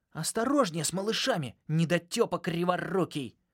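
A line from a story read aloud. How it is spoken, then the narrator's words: Shouting from a distance. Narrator (Russian): прикрикнул на меня Нокс из другого аквариума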